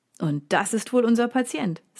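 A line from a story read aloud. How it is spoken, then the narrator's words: Cheerful. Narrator (German): sagt er fröhlich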